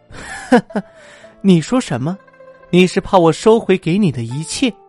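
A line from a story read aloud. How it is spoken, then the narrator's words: Woman suddenly laughing. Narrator (Chinese): 女子突然笑了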